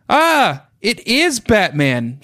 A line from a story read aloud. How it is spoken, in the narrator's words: shrieked Becca